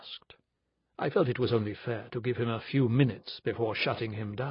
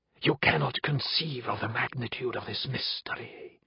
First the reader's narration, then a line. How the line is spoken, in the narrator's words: spoke, in a confidential whisper